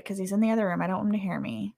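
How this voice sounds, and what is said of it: Whispering softly. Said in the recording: “I'm whispering a little bit”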